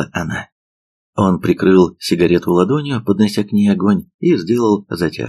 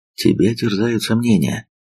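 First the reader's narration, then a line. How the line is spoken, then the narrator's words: Sighing. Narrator (Russian): вздохнул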